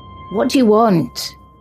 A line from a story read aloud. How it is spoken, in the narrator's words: Riley called out to him, his voice unsteady